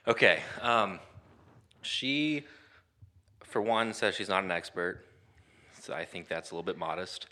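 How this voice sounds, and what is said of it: Out of breath, panting. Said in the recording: “I'm out of breath from running up and downstairs ... I'm out of breath, bud. Kind of sweaty.”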